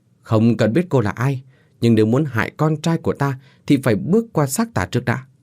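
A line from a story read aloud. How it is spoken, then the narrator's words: Angry retort. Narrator (Vietnamese): Ông Minh giận dữ đáp trả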